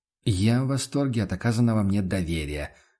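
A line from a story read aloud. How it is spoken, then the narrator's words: Gloomy agreement. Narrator (Russian): согласился охотник мрачно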